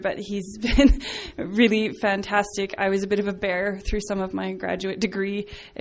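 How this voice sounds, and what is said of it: Teary, emotional voice. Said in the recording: “I don't know why I'm getting teary here”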